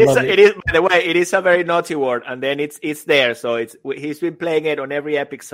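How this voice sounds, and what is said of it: Usual voice. Nothing is said of it.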